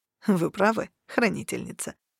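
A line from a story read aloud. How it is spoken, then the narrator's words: Soft laughing reply. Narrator (Russian): тихо засмеявшись, ответил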